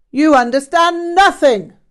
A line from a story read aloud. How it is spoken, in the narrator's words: Rinpoche shouted